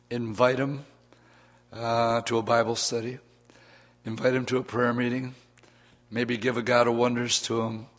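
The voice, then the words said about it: Speaker's voice sounds bad, strained. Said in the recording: “I got a bad voice ... my voice is really bad”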